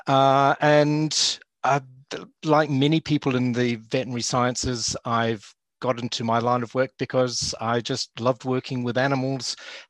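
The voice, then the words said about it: New Zealand accent. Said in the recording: “I hope you can tell from my accent, I'm a lapsed Kiwi”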